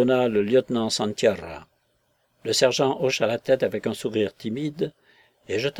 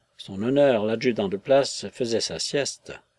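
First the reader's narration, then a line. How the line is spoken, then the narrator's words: Sergeant murmuring. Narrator (French): murmura le sergent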